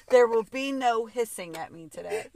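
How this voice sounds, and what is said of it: Stern teacher voice. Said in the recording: “You got to get a teacher voice.”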